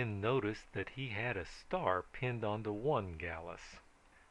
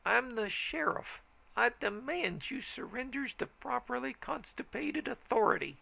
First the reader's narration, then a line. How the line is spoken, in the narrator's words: he hollered